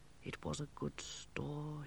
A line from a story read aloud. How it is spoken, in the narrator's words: he muttered